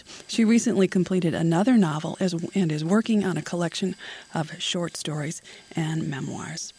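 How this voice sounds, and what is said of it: Breathless, failing voice. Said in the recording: “Excuse me, I'm losing my breath. ... My apologies for losing my voice here.”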